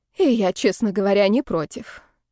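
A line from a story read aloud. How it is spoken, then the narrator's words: Sad sigh. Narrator (Russian): грустно вздохнула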